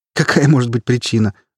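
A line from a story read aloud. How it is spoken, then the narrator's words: Laughing. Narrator (Russian): рассмеялась Кали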